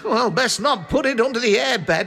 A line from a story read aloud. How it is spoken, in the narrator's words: he spluttered